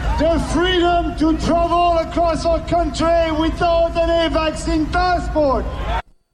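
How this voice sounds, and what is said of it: French Canadian accent. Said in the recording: “a different accent than the one I expect ... That's a funny accent ... That's a French Canadian accent.”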